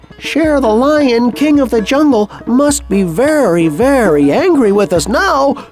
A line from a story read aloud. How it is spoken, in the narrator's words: they all said